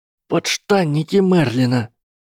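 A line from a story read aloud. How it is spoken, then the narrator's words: Breathless exclamation. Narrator (Russian): выдохнул Фред или Джордж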